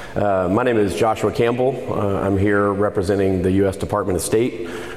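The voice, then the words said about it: Hoarse voice. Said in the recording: “I'm actually hoarse”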